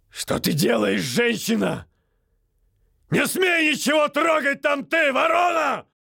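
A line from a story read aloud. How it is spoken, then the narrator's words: Shout. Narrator (Russian): выкрикнул он вслед врачам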